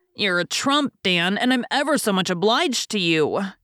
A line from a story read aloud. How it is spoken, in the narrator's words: cried Jack gratefully